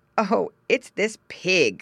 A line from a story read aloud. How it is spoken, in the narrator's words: laughed the farmer